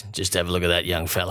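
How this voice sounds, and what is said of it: Poor impression of Stephen Kernahan. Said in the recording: “That's a terrible Kernahan accent”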